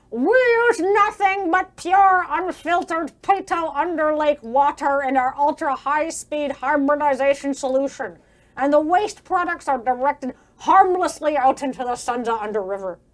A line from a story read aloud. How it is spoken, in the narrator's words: Mulgavac, now yelling over the chamber